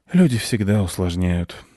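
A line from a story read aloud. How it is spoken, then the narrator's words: Sighing. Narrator (Russian): вздохнул кот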